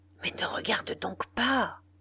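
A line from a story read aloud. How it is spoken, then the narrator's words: Furious whisper. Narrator (French): lui souffla furieusement Bordenave dans le cou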